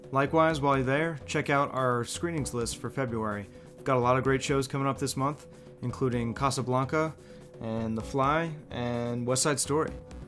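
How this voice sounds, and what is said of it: Canned announcer-style radio voice. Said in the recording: “my canned radio voice”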